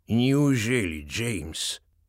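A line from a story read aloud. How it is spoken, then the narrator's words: Soft, tired voice. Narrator (Russian): Голос магистра Дэниелса звучит мягко и устало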